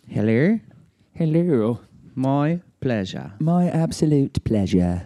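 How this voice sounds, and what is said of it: Put-on English accent. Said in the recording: “We can't speak in an English accent because Andy's not here... Ooh, I think I'm still doing it... Oh, I'm doing it again.”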